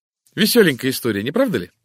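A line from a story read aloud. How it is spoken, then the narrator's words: Sudden laugh. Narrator (Russian): вдруг рассмеялась Тереза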